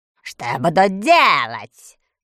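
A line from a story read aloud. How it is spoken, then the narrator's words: Hoarse deep voice. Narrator (Russian): хрипло пробасил полководец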